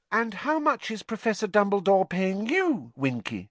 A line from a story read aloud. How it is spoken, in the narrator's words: Hermione asked kindly